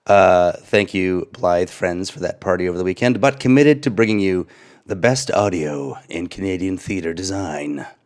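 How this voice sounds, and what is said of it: Hoarse voice from laryngitis. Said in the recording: “I'm your sickly host... suffering from a bout of laryngitis.”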